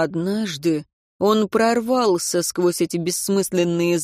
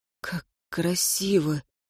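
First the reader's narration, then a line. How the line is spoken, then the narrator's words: Whisper. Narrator (Russian): шепнул он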